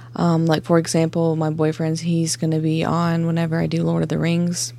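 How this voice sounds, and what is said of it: Slight Southern twang. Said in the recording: “I'm from South Carolina, so if you hear a little twang in my accent”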